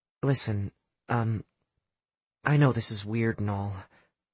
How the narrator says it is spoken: Mary said, lowering her voice to a confidential level

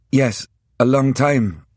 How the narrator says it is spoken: I interrupted nervously

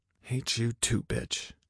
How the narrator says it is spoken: I mumbled under my breath

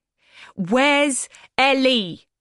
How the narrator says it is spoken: I bellowed above the noise of the music and Petra's fire engine wails

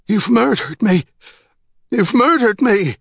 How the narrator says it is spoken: In sick astonishment, he cried

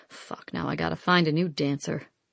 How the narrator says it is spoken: Smithy was back to muttering

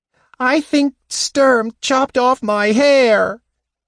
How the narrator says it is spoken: the Kender wailed

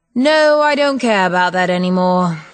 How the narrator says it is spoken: he sighed

